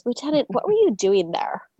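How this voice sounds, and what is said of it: Imitates a film character's weird accent. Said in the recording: “She gets this really weird accent”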